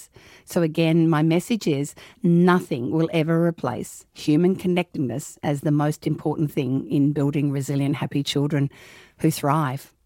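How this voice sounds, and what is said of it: Speaks with a noticeable accent. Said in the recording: “I'm hoping everyone's okay with my accent.”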